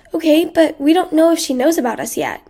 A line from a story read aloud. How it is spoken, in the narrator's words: Karen said